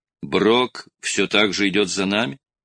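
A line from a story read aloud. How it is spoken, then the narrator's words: Plain. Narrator (Russian): спросила Мэй-Мэй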